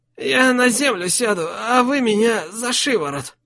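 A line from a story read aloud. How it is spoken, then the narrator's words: Strained forced smile. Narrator (Russian): попытался выдавить из себя улыбку Круглый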